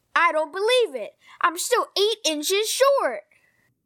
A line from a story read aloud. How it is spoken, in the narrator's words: said Ron furiously